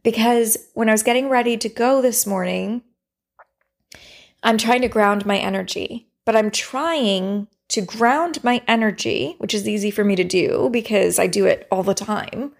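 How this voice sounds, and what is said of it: Raspy voice. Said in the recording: “you can hear my voice as raspy today ... my throat chakra, the energy in my throat just closed up”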